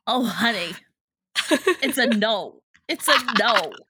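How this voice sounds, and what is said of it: Imitates another person's voice. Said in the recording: “That's a pretty good impression. ... Joan Rivers”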